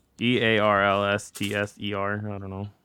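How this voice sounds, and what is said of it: Spells very fast. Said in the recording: “you said it so fast.”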